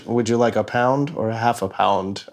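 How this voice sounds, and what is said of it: Weak Peter Coyote velvety voice impression. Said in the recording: “Peter Coyote ... his velvety voice ... I can't do a good impression of it”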